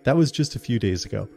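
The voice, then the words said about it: Puts on a character voice. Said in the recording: “I don't know why I'm doing a voice.”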